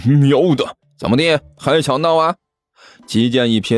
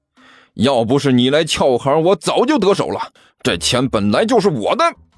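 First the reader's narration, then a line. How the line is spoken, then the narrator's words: Defiant shouting back. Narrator (Chinese): 齐剑毫不示弱的吼了回去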